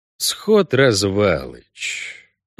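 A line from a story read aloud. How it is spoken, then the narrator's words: Soft drawl. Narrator (Russian): протянул Геральт, мягче, чем говорил обычно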